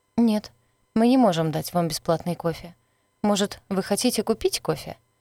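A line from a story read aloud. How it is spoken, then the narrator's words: Very calm. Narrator (Russian): сказала очень спокойно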